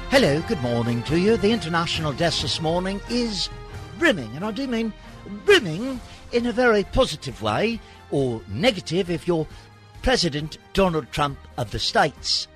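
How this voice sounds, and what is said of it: Put-on British accent. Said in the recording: “I'll do it with a British accent, like Peter Jennings. ... Everybody sounds like Ringo to me.”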